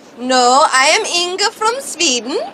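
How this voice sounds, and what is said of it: Put-on Swedish accent. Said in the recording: “Jamie Lee Curtis had no idea how to do an Austrian accent. She could only do a Swedish accent.”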